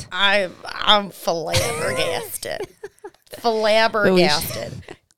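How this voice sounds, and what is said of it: Made-up accent, possibly Southern. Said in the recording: “I don't know where that Southern accent came from. ... That wasn't Southern. ... It was something I made up.”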